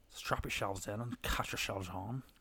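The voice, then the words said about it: Put-on Northern Irish accent. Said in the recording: “written in a Northern Ireland accent ... Oh, I do like that accent though.”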